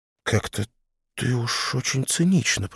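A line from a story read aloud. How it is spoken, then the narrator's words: Muttering. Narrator (Russian): пробормотала Люся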